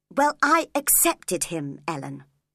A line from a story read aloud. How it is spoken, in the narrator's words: she said crossly